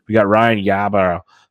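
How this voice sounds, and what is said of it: Put-on Boston accent. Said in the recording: “See, this is my accent. I told you I'm so good at him ... I'm acting like I'm a Boston guy.”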